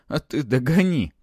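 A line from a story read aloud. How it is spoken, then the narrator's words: Hoarse reply. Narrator (Russian): прохрипел в ответ Матвей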